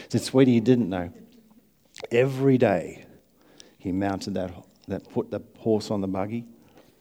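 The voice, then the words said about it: Strained voice, losing it. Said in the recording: “I'm not cracking up, I'm just losing my voice.”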